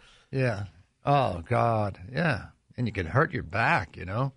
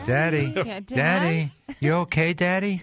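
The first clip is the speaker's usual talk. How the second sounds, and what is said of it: Cute little girl's voice. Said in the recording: “in her cute little voice”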